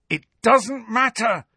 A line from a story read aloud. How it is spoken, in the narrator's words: Harry shouted